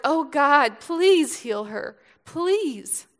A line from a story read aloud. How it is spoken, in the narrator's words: Moses cried to the Lord